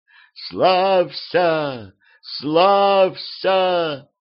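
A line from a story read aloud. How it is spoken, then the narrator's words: Strong clear female voice. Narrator (Russian): Словно весь мир наполнился сильным и чистым женским голосом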